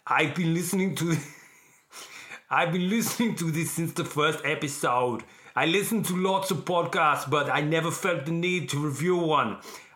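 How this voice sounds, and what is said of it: Bad Arnold Schwarzenegger impression. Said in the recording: “Should I do this as Arnold? ... my first ever attempt at an Arnold Schwarzenegger impersonation ... Okay, that was awful. That was up there with how bad the Yoda was.”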